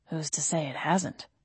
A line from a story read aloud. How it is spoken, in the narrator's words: Gabriel muttered